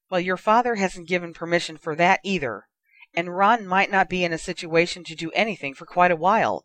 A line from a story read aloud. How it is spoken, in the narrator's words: exclaimed Mrs